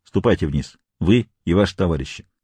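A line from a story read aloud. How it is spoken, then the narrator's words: Sharp. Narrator (Russian): он резко сказал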